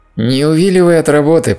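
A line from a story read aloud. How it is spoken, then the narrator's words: Demand, suppressing laughter. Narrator (Russian): потребовал Майкл, еле сдерживаясь, чтобы не расхохотаться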